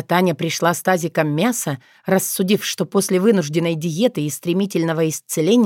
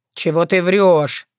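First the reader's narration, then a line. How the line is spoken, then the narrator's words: Grumbling. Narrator (Russian): пробурчал Сирки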